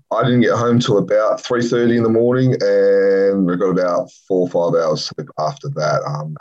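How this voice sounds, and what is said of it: Tired, worn-out voice. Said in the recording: “As you can probably tell by my voice ... it was a long night ... I feel like rubbish”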